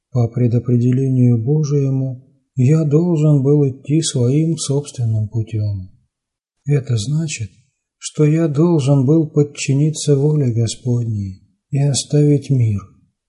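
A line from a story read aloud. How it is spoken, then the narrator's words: Calm reply. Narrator (Russian): спокойным голосом ответил отец Афанасий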